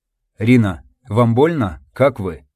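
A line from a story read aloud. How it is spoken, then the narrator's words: Restrained near-whisper. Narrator (Russian): Сдерживая голос, почти прошептал он, стараясь не потревожить Пуговку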